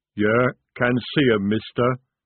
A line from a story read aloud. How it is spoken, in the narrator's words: he rumbled